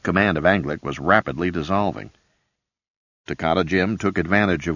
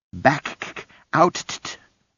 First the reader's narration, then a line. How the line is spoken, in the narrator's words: Suppa wailed